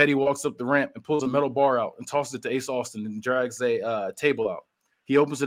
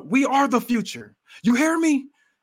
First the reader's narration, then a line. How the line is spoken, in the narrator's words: yells out